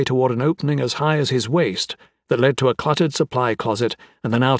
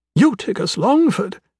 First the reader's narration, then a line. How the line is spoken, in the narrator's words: the Queen exclaimed